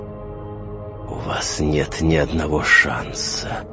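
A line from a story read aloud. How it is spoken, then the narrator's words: Menacing hiss. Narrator (Russian): прошипела темнота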